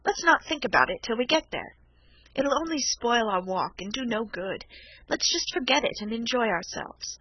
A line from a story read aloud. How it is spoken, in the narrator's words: I said cheerfully